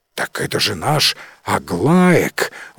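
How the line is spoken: Farmer's exclamation. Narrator (Russian): воскликнул один из фермеров

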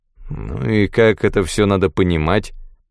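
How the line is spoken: Gloomy officer grumbling. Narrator (Russian): Хмурый офицер пробурчал

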